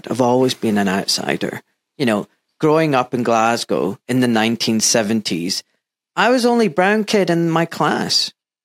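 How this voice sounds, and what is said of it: Mild Scottish accent. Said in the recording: “you've got a very mild Scottish accent”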